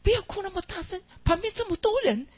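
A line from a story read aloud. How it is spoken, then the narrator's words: Hurried mother. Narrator (Chinese): 妈妈 赶快告诉他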